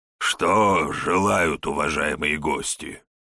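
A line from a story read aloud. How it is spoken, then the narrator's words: Hoarse question. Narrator (Russian): хрипло спросил хозяин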